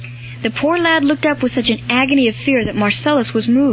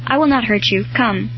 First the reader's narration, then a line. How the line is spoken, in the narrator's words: murmuring this in broken tones